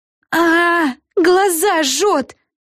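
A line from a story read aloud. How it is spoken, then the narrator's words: Scream. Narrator (Russian): закричала Флафанора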